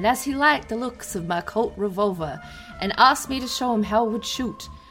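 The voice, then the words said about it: Exaggerated put-on accent. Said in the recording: “Your accent is too much.”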